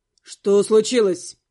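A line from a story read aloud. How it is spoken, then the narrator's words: Stern question. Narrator (Russian): Переспросил брюнет строго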